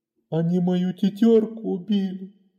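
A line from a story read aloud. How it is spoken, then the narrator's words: Sobbing. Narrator (Russian): всхлипывал он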